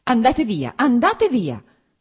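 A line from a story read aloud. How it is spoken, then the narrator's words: Sharper cutting shout. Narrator (Italian): gridò con voce ancora più tagliente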